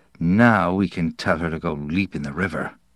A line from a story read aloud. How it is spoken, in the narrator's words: he said under his breath